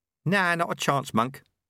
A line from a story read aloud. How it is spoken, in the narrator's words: said Ronnie